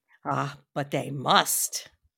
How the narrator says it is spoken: said very gravely

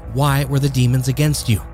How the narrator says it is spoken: in a dissonant and monotone voice, Matthew Raymond replied

